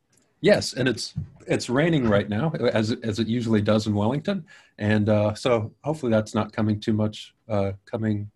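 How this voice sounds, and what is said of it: Non-New Zealand foreign accent. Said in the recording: “your accent, I think for most people will realize that are listening to this, you're not from New Zealand”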